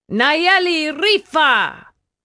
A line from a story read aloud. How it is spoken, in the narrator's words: He cried